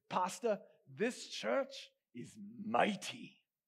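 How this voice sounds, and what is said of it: Imitated African accent. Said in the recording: “he's got an African accent, so I'm going to try and capture it a little bit here”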